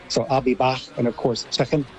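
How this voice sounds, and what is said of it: Put-on American Scouse accent. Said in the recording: “I liked that American Scouse accent there. That was quite good.”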